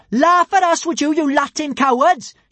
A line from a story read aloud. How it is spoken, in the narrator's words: she cried